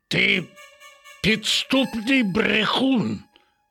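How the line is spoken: Growling. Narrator (Ukrainian): загарчав на нього Рекс

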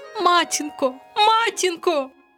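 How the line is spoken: Frightened cry. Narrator (Ukrainian): крикнула вона, перестрашена

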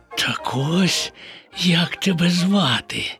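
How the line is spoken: Whisper. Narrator (Ukrainian): прошепотів Боня

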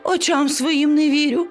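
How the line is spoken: Exclaiming woman. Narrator (Ukrainian): вигукнула вона

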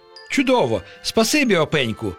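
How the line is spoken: Exclaiming. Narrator (Ukrainian): вигукнув Пустомелик

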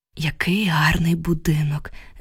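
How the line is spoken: Sighing. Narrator (Ukrainian): зітхнула я

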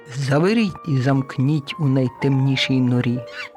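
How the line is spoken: Stern command. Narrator (Ukrainian): урвала сміх і суворо наказала

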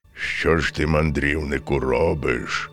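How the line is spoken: Menacing bear voice. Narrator (Ukrainian): промовив ведмідь грізним голосом

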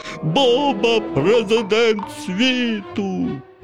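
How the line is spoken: Silly zombie voice. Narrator (Ukrainian): перетворився Ваня на зомбі і вигукнув дурним голосом

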